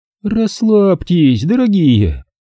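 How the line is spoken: Purring. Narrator (Russian): промурлыкала Зельда и сладко зевнула

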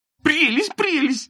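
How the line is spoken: Squeaky. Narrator (Russian): запищал Ситников

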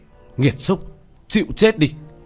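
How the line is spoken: Loud shout. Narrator (Vietnamese): Tiểu Thất hét lớn

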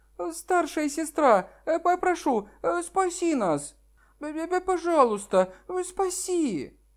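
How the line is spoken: Little girl's tearful plea. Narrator (Russian): маленькая девочка плачущим голосом просила

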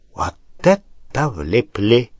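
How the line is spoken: Whisper. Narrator (Russian): прошептал барон

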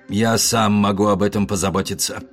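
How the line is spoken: Grumbling. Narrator (Russian): проворчал дядя

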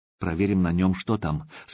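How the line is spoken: Quiet. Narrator (Russian): сказала Катя негромко

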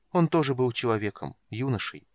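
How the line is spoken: Soft. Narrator (Russian): мягко сказала Сара

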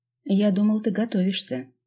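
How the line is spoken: Wistful hushing hiss. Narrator (Russian): шикнул на Димку, вздохнув с тоской

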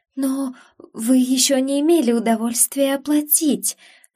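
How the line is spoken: Timid babble. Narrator (Russian): пролепетала Сана

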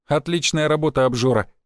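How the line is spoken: Amused snort. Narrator (Russian): хмыкнул я

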